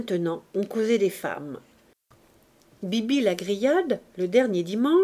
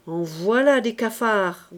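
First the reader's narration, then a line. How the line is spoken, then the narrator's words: Grumbling. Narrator (French): grogna mes bottes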